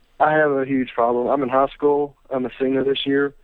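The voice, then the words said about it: Regional accent. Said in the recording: “I like that accent.”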